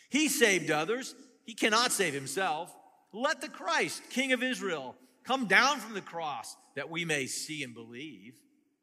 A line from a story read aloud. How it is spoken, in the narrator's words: the chief priests and the scribes mocked him to one another, saying